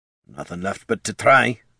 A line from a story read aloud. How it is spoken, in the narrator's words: muttered Gorm